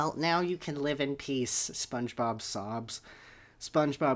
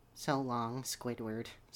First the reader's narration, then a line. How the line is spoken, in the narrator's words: Sponge says softly